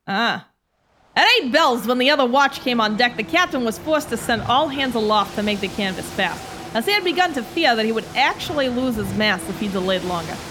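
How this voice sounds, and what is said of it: Put-on mixed Boston-New York accent. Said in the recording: “Do a good old Boston fisherman... This is more New York... the confused Boston, New York accent”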